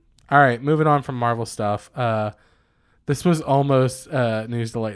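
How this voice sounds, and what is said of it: Usual voice. Nothing is said of it.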